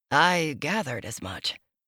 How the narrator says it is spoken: he murmured

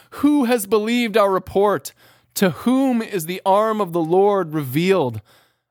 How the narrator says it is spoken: pleading with God

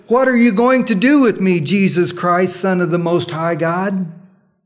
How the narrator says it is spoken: he cried with this loud voice and he says

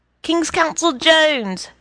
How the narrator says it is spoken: cried James Johnson Sweeney

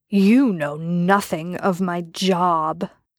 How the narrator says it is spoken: Jensen growled

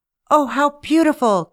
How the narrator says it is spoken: cried Rosie Red when she saw the glittering gems

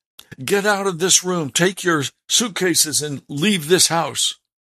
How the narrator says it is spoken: yelled

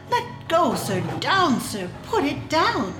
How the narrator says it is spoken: he cried, with angry frown

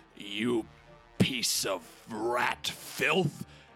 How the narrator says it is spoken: quietly growl

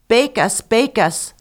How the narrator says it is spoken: the bread cried out to her

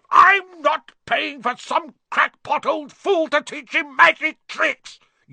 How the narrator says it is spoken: yelled Uncle Vernon

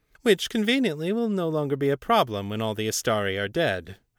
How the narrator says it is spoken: Agemnos said dryly

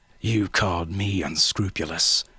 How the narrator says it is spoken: the traitor snarled

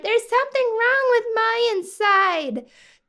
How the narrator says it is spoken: Young Goldie cried

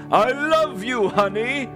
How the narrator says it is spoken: Santa groveled, cried, and pleaded

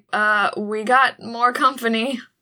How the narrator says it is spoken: I shout

